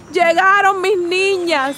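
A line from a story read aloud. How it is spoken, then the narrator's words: Grandmother shouting. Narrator (Spanish): gritó abuela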